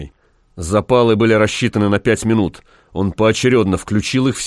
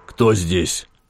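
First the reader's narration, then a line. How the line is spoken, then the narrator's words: Hoarse croak. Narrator (Russian): прохрипел генерал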